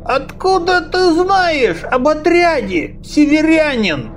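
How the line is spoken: Dull alarmed old rasp. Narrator (Russian): Тусклым, но очень встревоженным голосом прохрипел старик

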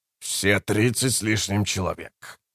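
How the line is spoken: Grumbling. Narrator (Russian): проворчал Троц

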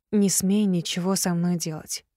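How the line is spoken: Whispered. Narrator (Russian): прошептала я

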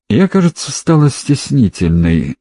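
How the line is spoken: Childlike laughing. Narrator (Russian): засмеялась она с детской непосредственностью

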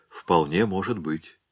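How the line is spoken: Quiet, thoughtful, doubtful. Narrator (Russian): И хотя Гринхусон не поверил ни единому слову, он ответил тихо и раздумчиво

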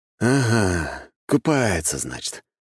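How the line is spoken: Heavy sigh. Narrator (Russian): тяжело вздохнул я

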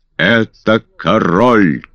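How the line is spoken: Thunderous crowd roar. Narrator (Russian): как эхо прогремели в ответ 8000 глоток

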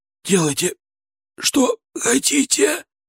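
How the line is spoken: Hoarse wheeze. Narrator (Russian): прохрипел он

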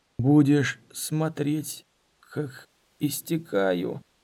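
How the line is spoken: Hoarse croak. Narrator (Russian): Дорин прохрипел

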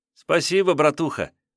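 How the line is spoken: Joyful, smiling boy. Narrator (Russian): сказал мальчишка, радостно улыбаясь от того, что стал владельцем столь ценного подарка

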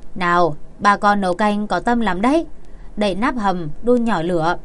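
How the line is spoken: Smiling. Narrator (Vietnamese): Triệu Nguyệt cũng mỉm cười tủm tỉm mà nói

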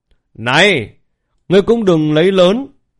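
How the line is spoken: Loud call. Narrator (Vietnamese): Lý Bình An lớn tiếng kêu

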